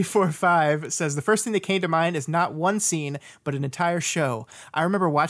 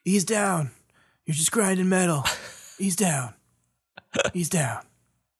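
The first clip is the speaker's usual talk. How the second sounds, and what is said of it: Imitates a film character's voice. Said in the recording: “My Hicks impression. ... That's really good. It's a good Hicks impression.”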